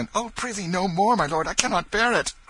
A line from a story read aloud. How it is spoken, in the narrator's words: cried Tom